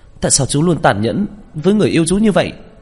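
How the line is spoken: Exasperated shout. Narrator (Vietnamese): Tôi thực không chịu nổi, tôi hét lên

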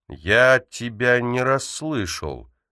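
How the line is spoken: Slow, teacher's voice. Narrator (Russian): медленно проговорил учитель

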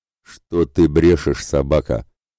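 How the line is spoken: Exasperated growl. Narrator (Russian): не выдержав, рыкнул на купца Ратибор

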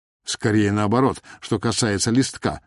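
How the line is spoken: Plain. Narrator (Russian): сказала Даша

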